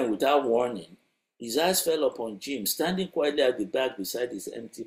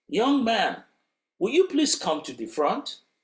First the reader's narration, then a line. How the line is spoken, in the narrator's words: He called out